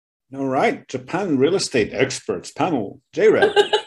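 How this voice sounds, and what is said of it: Announcer-style radio voice. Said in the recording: “Is that your radio voice”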